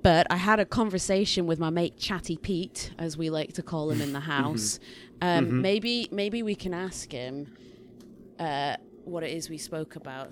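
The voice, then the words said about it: Mixed Scottish-English accent. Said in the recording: “my accent, and, you know, I've just got weird Scottish-English accent thing going on”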